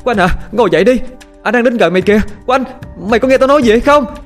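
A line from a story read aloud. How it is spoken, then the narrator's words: Shouting, unheard. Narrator (Vietnamese): Tiếng la hét của Dung gần như vô hiệu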